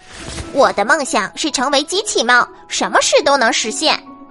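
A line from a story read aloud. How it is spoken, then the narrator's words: Loud recitation. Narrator (Chinese): 阿乌猫 大声的开始念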